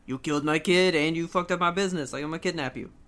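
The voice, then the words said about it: Put-on New York Italian accent. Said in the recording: “What accent is that? ... It's, like, New York Italianer.”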